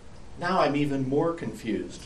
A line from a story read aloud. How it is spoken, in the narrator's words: sighed Wabi Sabi